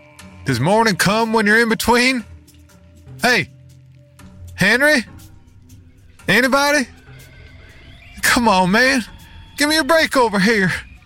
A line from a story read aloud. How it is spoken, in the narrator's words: called out